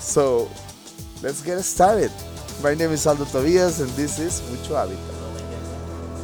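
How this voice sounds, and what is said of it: Non-native English accent. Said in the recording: “make fun about my English, about my accent”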